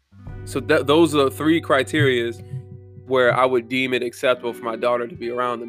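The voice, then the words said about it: Slightly congested, sniffly voice. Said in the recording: “my voice is a little weird. I'm sniffling too. My allergies”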